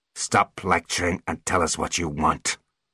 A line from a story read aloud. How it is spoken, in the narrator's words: snarled Root